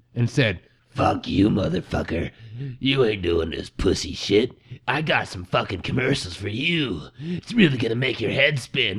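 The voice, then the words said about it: Menacing Krampus character voice. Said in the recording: “That is a spot on Krampus impersonation.”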